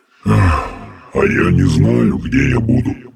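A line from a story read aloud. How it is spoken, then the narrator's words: Crushed, dejected voice. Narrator (Russian): убитым голосом поведал он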